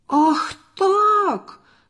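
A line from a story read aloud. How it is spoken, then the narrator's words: Shouted. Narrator (Russian): закричал Борис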